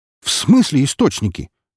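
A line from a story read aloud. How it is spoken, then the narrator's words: Near bark. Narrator (Russian): Едва не рявкнул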